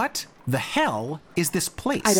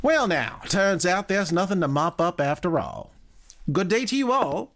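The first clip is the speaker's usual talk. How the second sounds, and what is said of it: Put-on Wild West gambler accent. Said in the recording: “accent ... Wild West persona, ne'er-do-well, fast-talking riverboat gambler ... It was so real”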